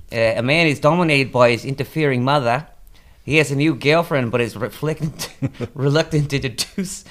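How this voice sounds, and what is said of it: Put-on Australian accent. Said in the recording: “We're going down under. ... it's not bad. That's a pretty good accent.”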